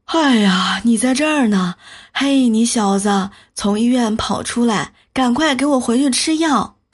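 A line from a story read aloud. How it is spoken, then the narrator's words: Out of breath. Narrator (Chinese): 两个穿白大褂的医生进来，气喘吁吁地说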